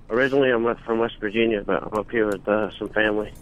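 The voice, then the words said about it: West Virginia accent. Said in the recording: “I like his accent. ... I like your accent.”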